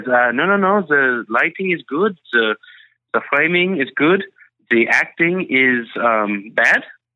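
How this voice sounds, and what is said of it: Put-on French accent. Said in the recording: “in his French accent”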